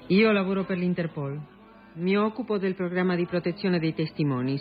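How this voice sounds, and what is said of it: Italian with Argentine accent. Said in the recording (Italian): “Lei non è italiana?...Padre italiano, madre argentina. Come può sentire dal mio accento”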